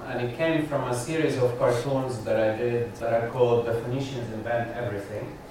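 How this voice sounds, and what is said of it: Lebanese accent. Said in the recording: “my Lebanese accent?”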